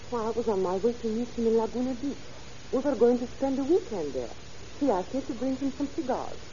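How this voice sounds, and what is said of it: French-accented English. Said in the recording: “Oh, you have an accent. Are you a foreigner? ... My accent is French.”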